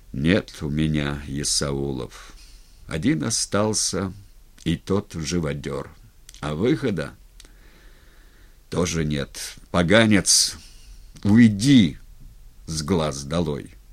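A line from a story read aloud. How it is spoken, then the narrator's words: Sad and gloomy. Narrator (Russian): Степан мрачно сказал с грустью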